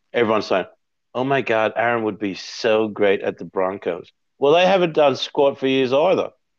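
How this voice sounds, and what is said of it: Amateurish put-on American accent. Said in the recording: “You sound like my kid's doing an American accent”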